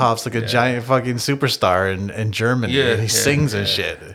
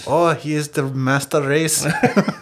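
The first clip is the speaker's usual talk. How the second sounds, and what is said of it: Good put-on German accent. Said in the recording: “It's scary that you can do a good German accent.”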